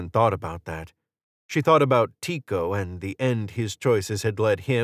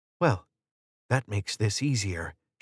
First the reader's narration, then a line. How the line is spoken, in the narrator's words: whispered